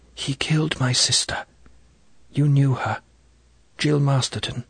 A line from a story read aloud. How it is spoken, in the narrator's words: She whispered almost to herself